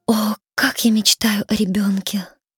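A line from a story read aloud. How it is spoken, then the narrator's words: Sighing, queen. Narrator (Russian): вздохнула королева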